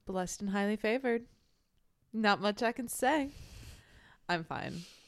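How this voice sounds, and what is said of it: Flat deadpan delivery. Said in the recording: “that sounded very deadpan”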